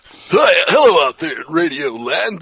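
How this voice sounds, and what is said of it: Exaggerated old-style radio DJ voice. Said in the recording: “This is my radio voice. ... Got to talk like this if I'm on the radio.”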